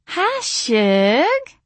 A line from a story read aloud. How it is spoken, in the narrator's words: she said cheerfully